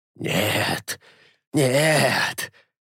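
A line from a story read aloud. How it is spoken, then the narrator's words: Quiet, furious whisper. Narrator (Russian): тихо и яростно шептал Альда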